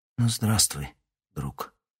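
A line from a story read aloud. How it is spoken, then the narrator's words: Whisper. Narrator (Russian): Прошептала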